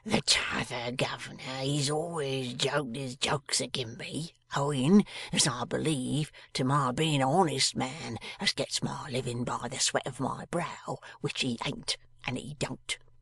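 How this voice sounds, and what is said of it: Hoarse, confidential character voice. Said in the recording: “replied the man, becoming hoarsely confidential.”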